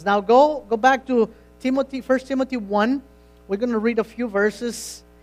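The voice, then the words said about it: Non-native English accent. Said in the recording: “you got to excuse my accent. You know that um, I'm ESL”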